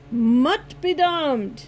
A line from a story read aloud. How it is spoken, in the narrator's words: Hector yelled